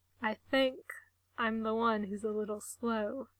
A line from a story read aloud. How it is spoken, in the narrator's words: he admits, his voice low and throaty